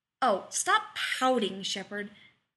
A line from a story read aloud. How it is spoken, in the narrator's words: Rodney said irritably